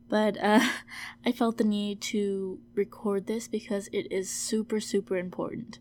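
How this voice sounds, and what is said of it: Sick, altered voice. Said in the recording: “my voice is a little bit different... I'm just a bit sick right now”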